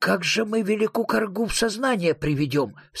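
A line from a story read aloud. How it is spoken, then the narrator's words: Plain question. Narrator (Russian): спросил велик Ян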